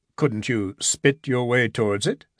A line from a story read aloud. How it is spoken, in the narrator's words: said Gibson solemnly